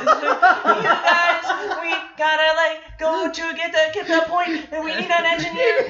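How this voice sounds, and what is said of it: Excited little boy voice, inhaling while talking. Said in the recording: “He had like that, you know, excited little boy when they inhale when they talk.”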